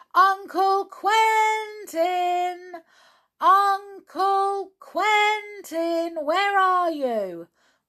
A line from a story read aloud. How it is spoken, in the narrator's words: shouted loudly